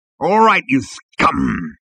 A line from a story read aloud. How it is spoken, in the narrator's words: he growled